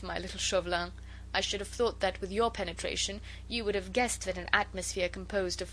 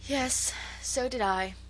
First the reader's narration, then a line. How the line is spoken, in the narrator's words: said with a sigh